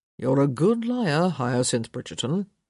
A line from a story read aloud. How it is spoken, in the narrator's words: he murmured